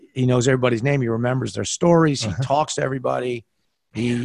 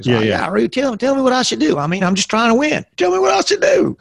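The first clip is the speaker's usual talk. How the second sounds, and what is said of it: Put-on Southern accent. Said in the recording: “he's got a Southern accent.”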